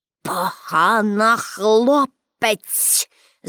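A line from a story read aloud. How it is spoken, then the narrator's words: Hissing through teeth. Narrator (Ukrainian): засичав крізь зуби директор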